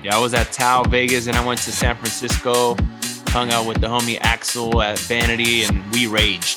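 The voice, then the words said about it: Worn-out, recovering voice. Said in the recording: “as you can hear it in my voice, I'm still recovering from the weekend”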